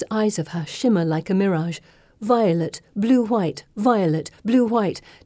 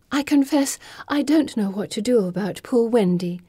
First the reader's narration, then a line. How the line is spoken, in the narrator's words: says with a sigh